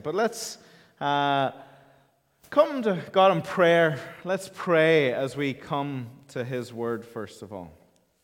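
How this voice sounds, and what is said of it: Irish Donegal accent. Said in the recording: “it's a Donegal accent ... the most beautiful county in Ireland ... That's the accent.”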